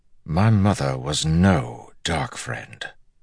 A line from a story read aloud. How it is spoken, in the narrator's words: Galad said quietly